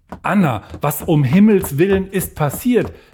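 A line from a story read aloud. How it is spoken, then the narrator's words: Calling out. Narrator (German): rief Magdalena ihr entgegen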